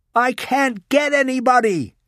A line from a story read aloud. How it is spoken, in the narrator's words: she yelled